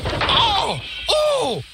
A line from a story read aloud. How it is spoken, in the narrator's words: cried the van